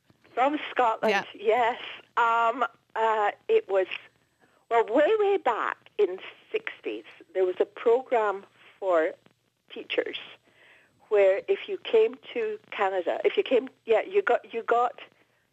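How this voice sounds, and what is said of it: Scottish accent. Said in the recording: “Your accent gives it away ... from, I'm presuming, Scotland.”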